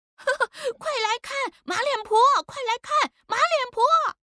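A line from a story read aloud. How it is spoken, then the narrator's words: Children shouting mockingly. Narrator (Chinese): 几个不懂事的奴仔也跟着喊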